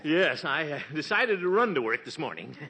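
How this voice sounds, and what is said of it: Out of breath, panting. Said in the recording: “My, you seem a little out of breath.”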